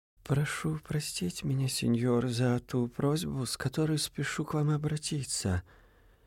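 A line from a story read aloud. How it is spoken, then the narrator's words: Low, private, accented. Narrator (Russian): вполголоса произнес англичанин на неотточенном итальянском, тоном исключительно приватным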